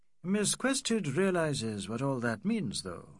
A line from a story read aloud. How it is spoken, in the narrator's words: said McBride sadly